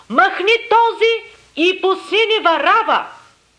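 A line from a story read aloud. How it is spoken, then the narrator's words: Crowd screaming in unison. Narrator (Bulgarian): всички единогласно изкрещяха, казвайки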